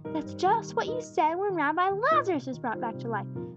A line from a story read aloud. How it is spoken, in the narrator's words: piped Jesse's shrill voice, quite unexpectedly